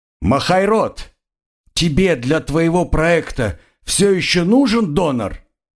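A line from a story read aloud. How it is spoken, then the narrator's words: Crocodile shouting. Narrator (Russian): крикнул крокодил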